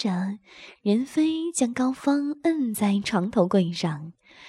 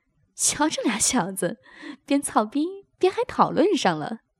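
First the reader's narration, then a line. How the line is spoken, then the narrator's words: Laughing. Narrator (Chinese): 高洁笑道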